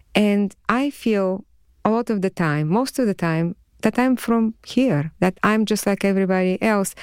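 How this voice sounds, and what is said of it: Foreign accent in English. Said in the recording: “I found out that I had an accent”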